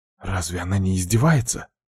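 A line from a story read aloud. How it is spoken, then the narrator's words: Crowd whispering. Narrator (Russian): шептались люди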